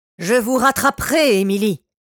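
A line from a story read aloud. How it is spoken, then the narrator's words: Furious shout. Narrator (French): cria-t-il plein de rage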